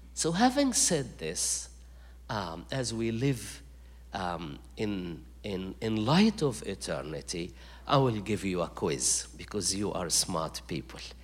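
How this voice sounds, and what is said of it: Egyptian accent. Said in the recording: “this strange Egyptian accent”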